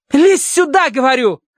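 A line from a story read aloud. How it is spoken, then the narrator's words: Irritated bark. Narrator (Russian): рявкнула она с раздражением в голосе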